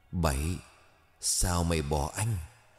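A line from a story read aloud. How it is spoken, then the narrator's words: Hoarse, grating, metallic. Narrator (Vietnamese): Giọng nói khàn đùng zin rít, cọ sát của ngay mảnh kim loại rỉ sét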